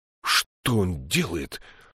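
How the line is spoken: Furious hiss. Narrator (Russian): яростно прошипел Изорн

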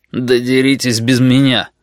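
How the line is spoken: Disgusted grumble. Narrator (Russian): Один игрок с отвращением проворчал

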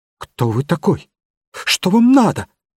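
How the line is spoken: Trembling question. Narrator (Russian): спросил он дрожащим голосом

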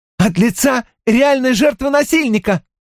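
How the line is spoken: Exclaiming. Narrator (Russian): воскликнула Кортни

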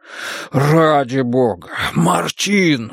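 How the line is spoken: Breathless exclamation. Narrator (Russian): выдохнул Барсело

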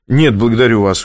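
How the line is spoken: Cold reply. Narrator (Russian): холодно ответил Оскар

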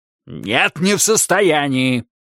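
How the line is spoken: Barking retort. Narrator (Russian): рявкнул в ответ Тедди

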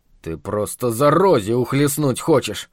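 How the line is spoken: Grumbling. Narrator (Russian): буркнул толстый Чарли

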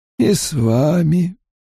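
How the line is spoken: Sad reply. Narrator (Russian): печально ответил Райн

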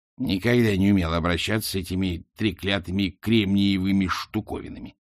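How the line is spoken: Grumbling. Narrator (Russian): проворчала она

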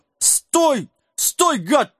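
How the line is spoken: Desperate wailing. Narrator (Russian): вопил несчастный

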